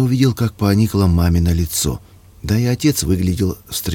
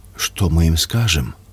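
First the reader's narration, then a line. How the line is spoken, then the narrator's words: Whisper, mother. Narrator (Russian): прошептала Васина мама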